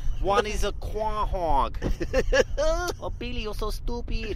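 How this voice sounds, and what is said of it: Ambiguous mixed put-on accent. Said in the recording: “potentially racially ambiguous accent ... a real melange of accents”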